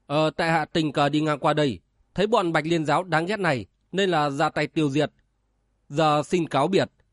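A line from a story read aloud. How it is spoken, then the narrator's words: Cold. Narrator (Vietnamese): Chàng lạnh lùng nói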